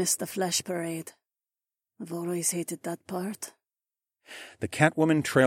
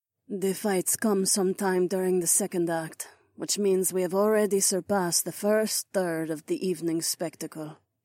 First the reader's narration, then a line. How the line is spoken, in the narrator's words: she said in a dead voice